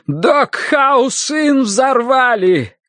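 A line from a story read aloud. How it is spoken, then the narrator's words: Shout. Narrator (Russian): крикнул он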